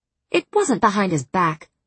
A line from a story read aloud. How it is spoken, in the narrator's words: Moore snapped